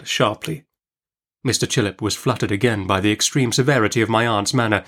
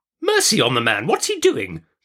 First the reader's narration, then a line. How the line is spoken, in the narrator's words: cried my aunt impatiently